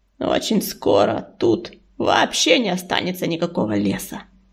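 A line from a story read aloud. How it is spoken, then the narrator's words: Grim, through clenched teeth. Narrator (Russian): мрачно процедил Чернозвезд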